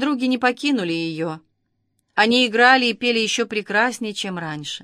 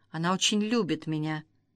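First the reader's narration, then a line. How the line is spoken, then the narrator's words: Whisper. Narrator (Russian): Сафо прошептала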